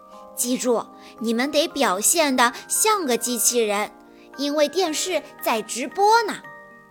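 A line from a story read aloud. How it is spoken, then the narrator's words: Quiet urging. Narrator (Chinese): 科迪……小声地叮嘱机器人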